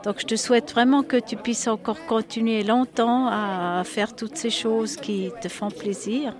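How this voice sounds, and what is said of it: Speaks French with a foreign accent. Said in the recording (French): “tu auras entendu avec mon accent”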